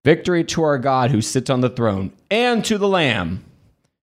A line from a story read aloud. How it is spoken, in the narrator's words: they shouted together